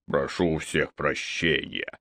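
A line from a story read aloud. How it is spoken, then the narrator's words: Rough grumble. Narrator (Russian): грубо буркнул он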